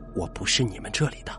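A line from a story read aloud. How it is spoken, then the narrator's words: Low voice. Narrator (Chinese): 老王低声说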